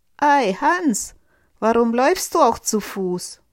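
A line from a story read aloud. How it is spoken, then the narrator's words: Rider calling out. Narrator (German): Der Reiter rief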